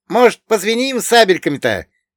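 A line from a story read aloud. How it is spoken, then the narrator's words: Cheerful shout. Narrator (Russian): весело прокричал Богдан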